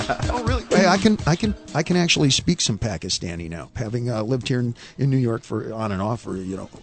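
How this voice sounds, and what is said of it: Usual voice. Nothing is said of it.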